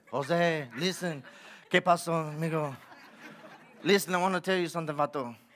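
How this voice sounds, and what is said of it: Put-on Spanish accent. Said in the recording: “maybe in a Spanish accent”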